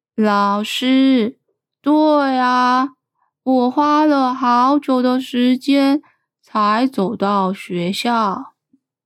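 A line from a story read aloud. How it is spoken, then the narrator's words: Slow speech. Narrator (Chinese): 树懒同学慢慢的说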